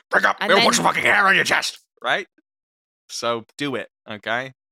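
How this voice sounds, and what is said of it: Convincing impression of a gruff boss. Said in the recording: “that was amazing ... Your impression ... sounding exactly like Dave F. Campbell”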